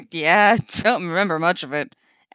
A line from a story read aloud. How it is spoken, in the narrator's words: Eddie laughs